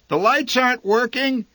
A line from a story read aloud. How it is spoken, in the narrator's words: she called out into the rain